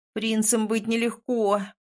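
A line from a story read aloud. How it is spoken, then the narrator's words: Groaning. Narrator (Russian): простонала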